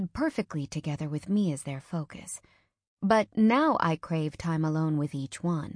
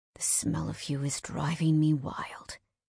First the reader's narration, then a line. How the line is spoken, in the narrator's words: he growls